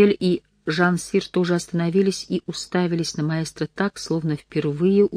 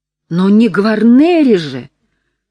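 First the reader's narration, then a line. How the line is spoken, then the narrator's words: Exclamation. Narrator (Russian): воскликнул он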